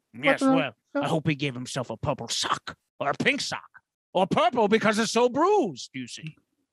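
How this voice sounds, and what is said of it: Imitates another person's voice. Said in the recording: “This is the greatest Matt impression of all time. ... You should get some voice acting. ... Quite the impersonation there. Not bad. I thought Matt was right here.”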